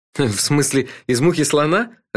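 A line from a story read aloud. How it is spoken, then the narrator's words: Laughing. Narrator (Russian): рассмеялся я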